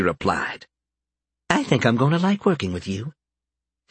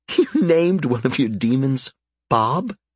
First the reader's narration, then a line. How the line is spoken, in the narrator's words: The sheer incredulity in Karen's voice